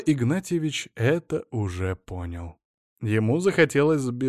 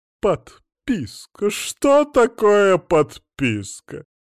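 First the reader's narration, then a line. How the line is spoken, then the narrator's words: Loud sobbing. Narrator (Russian): Еще громче зарыдала фрау Роза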